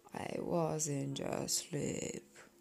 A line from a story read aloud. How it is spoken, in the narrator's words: he said in a hoarse, feeble voice